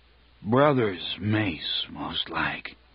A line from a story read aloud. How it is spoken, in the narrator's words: Balor said thickly